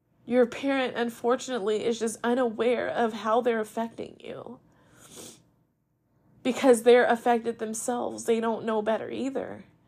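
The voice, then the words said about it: Emotional voice. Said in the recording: “I'm just getting emotional, but I I can't help this”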